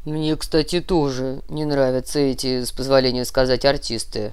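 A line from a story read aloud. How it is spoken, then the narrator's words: Low droning voice behind. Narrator (Russian): прогудела за его спиной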